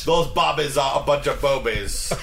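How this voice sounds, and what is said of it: Bad put-on English accent. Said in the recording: “That was awful. That was the worst English impression that I've ever done in my ... Life.”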